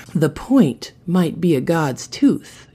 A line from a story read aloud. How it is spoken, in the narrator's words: she whispered in Barrow's ear